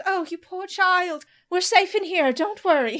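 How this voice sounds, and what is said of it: Put-on British accent. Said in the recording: “She's British. ... She's not Minnesotan.”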